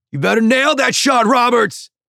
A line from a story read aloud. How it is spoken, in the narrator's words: he yells